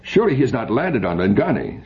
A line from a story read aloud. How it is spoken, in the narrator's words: said Aratap sharply